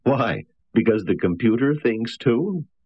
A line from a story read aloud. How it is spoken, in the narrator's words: Berkowitz laughed